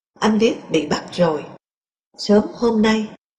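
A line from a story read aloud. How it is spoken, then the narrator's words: Soft, hushed. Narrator (Vietnamese): khẽ nói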